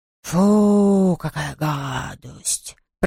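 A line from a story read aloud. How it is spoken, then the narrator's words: Toothless mumble. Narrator (Russian): прошамкал он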